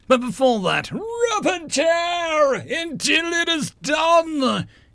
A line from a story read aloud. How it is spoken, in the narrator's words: shouted the paper shredder to the office as a whole